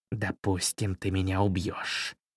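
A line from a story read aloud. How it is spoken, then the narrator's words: Hissing. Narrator (Russian): прошипел король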